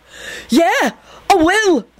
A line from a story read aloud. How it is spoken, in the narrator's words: Benji gasped out